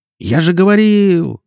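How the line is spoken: Yelling. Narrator (Russian): завопил Никита

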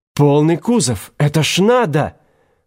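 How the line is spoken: Excited exclamation through gas mask. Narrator (Russian): Возбужденно сверкая стеклами противогаза, воскликнул товарищ Пинскер

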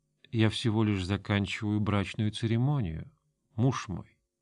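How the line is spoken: Smiling, low voice. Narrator (Russian): А Толла улыбнулась и вполголоса ответила

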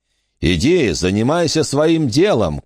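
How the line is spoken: Shout. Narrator (Russian): крикнул ему Бак

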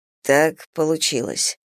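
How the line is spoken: Quiet. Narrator (Russian): тихо сказал Зейн

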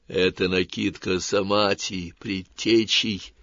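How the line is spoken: Forester whispering. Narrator (Russian): зашептал лесник

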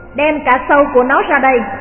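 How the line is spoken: Furious leader shouting. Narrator (Vietnamese): Tên đội trưởng cáu quá quát lên

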